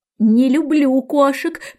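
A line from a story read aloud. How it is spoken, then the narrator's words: Shrill trembling exclamation. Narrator (Russian): пронзительно дрожащим голосом воскликнула мышка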